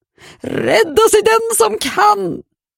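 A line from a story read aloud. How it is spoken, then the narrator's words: Screaming. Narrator (Swedish): skrek Greta Borg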